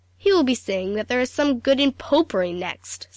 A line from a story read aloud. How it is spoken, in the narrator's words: said Aunt Elizabeth indignantly